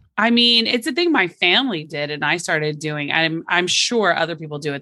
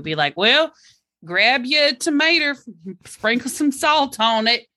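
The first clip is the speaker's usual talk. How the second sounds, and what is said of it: Cartoonish put-on Southern accent. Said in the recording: “cartoonish accent of what you all sound like ... Southern”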